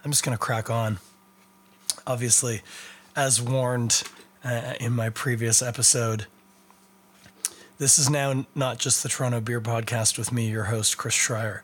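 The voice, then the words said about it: Strained, worn-out voice. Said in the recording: “my voice is spent and I don't know how bad it's going to get”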